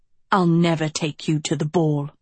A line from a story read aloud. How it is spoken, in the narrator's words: Tedros spat